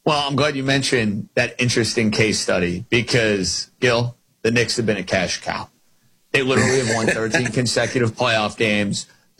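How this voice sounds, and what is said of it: New York accent. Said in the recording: “I'm a New York guy. You can tell by the dialect I'm a New York guy.”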